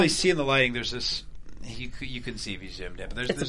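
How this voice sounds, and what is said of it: Usual voice. Nothing is said of it.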